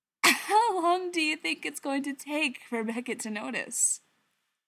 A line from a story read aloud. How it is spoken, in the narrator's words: Gerard laughed